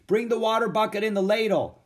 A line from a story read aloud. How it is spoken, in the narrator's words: Annie shouted